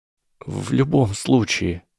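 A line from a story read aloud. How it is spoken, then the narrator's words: Trembling voice. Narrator (Russian): дрожащим голосом продолжила Гермиона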